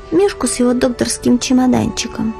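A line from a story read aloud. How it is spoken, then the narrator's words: Quiet. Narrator (Russian): тихо сказала Лиза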